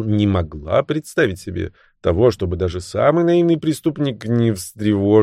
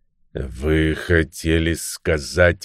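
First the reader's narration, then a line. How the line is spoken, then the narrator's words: Imposing tone. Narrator (Russian): внушительным тоном произнес суперинтендант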